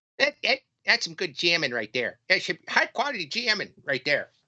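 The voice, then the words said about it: Imitates the Water Boy character voice. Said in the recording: “my water boy impression”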